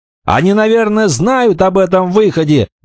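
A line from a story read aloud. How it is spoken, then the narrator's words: Shouted. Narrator (Russian): прокричал Роберт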